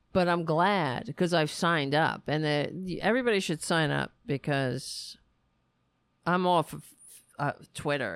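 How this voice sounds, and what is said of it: Strained, fading voice. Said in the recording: “I'm losing my voice again”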